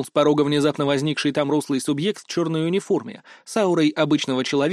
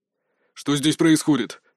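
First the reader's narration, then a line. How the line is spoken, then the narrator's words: Growl. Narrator (Russian): рыкнул второй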